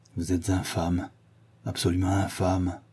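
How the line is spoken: Murmured. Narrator (French): murmura-t-il

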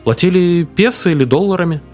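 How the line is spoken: Plain. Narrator (Russian): спросил Пепе

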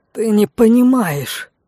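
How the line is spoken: Desperate exclamation. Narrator (Russian): в отчаянии воскликнул Лок

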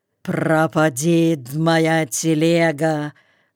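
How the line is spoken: Hoarse wheeze. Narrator (Russian): просипел Ермил

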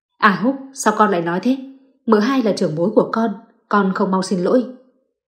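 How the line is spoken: Stern father scolding. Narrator (Vietnamese): Ba Chu nhíu mày quát

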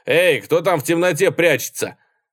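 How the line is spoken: Shout. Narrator (Russian): Он крикнул

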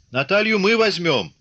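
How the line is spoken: Shouting while running. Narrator (Russian): кричал, догоняя его Пантелей Прокофьевич

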